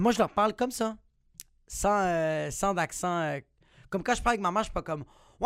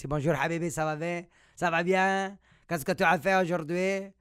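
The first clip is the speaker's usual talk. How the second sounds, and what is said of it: Imitated Arabic-accented French. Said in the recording (French): “mon père, c'est vraiment un accent, ça va rester un accent euh, arabe.”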